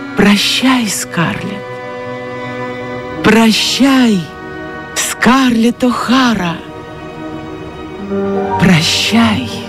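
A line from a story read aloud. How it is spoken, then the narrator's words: Inner whisper. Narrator (Russian): Все это, кровная часть ее души, шептала ей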